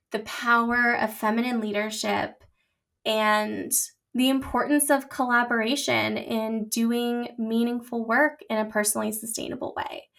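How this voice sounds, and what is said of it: Emotional voice. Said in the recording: “getting emotional. If you can't hear it in my voice, it's definitely there.”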